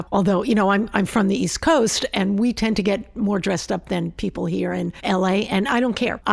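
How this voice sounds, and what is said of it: New York accent. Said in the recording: “you clock you as a New Yorker, like immediately ... My attitude or my accent? ... it's a little of both”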